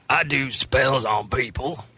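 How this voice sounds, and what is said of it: Witch voice that sounds like a man. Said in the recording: “Why does my witch impression sound like a man?”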